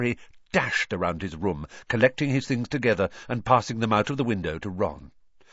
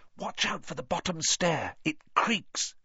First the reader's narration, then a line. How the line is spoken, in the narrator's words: Harry whispered back